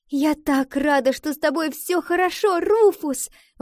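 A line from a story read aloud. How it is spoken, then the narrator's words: Exclamation. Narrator (Russian): воскликнула Валентина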